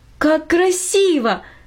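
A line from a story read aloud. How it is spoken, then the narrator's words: Exclaimed. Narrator (Russian): воскликнула Минори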